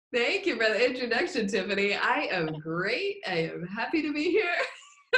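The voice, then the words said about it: Smiling, cheerful voice. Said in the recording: “hear the smile in your voice”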